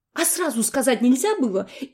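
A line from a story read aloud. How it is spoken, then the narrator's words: Frightened question. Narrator (Russian): испуганно спросил я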